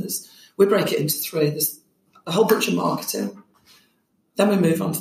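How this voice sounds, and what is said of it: Hoarse, partly lost voice. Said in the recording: “about midnight, my voice kind of went again, and I've still not quite recovered”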